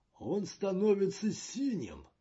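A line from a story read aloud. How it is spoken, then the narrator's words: Exclaiming. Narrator (Russian): воскликнул Слунч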